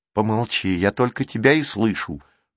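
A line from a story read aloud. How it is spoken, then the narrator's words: Boy's grumble. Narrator (Russian): буркнул мальчик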